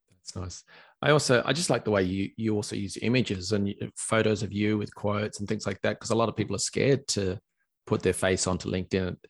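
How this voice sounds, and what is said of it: Australian accent. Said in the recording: “who wants to listen to an Aussie accent? ... It's lovely, your Aussie accent.”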